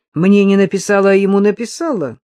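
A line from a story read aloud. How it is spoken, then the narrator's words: Guffawing laughter. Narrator (Russian): захохотал даже Сережка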